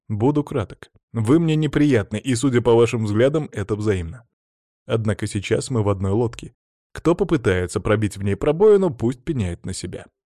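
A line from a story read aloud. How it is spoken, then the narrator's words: Calm, very clear. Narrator (Russian): спокойно, но весьма доходчиво произнес я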